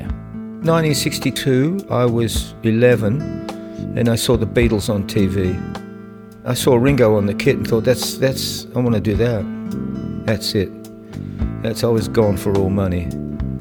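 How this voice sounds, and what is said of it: Bristol English accent. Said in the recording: “Bristol... That's the accent.”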